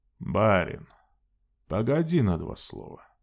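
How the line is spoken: Deep bass voice. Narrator (Russian): густо басом сказал высокий

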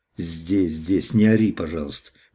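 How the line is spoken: Angry, through gritted teeth. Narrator (Russian): проговорил я со злостью сквозь зубы

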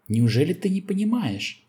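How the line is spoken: Hysterical exclamation. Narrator (Russian): истерически воскликнул Артур

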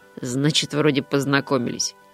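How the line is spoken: Amused snort. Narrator (Russian): хмыкнул кот

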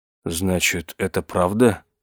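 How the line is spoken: Dazed mumbling. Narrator (Russian): пробормотал он

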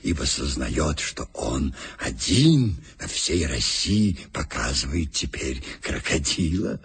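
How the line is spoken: Whisper. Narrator (Russian): шепнул мне Иван Матвеевич

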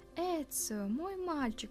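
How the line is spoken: Joyful exclamation. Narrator (Russian): радостно воскликнул Уберто

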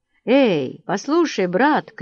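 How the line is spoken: Shouted. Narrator (Russian): крикнул он

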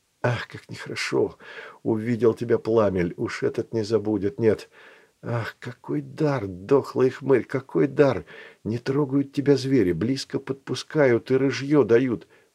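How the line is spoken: Muttering. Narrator (Russian): бормотал он

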